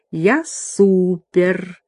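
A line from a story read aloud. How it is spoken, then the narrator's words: Purring. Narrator (Russian): она промурлыкала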